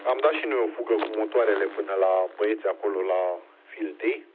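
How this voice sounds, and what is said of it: Hoarse voice. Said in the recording (Romanian): “poate par mai răgușit așa, că am vorbit mai mult”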